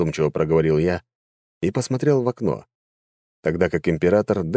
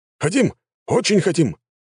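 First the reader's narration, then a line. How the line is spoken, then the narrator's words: General's yell. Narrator (Russian): заорал один из генералов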